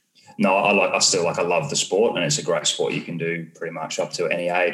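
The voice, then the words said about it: Hybrid English-Australian accent. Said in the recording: “My accent, I think, is a hybrid from the English and Australian one.”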